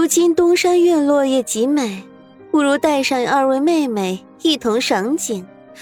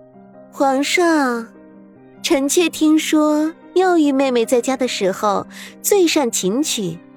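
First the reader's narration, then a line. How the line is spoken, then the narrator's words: Sweet, lilting, smiling. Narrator (Chinese): 萧天雪却笑得越发艳丽起来，声音婉转，如同黄莺一样说道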